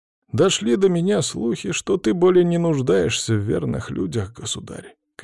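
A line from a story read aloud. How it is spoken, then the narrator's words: Sad sigh. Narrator (Russian): князь грустно вздохнул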